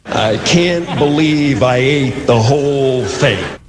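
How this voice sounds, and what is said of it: Jim Carrey impersonating Jack Nicholson. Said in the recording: “that's Jim ... Carrey. ... He's doing an impression.”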